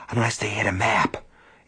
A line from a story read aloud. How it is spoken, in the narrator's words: Ace whispered